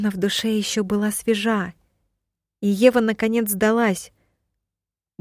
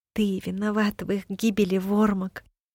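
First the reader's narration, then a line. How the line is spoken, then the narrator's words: Quiet, tearful. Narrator (Russian): тихо сказала она сквозь слезы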